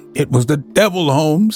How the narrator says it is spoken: he cried

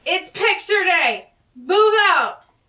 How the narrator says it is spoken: she yells

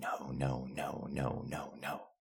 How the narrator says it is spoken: The man fervently whispering

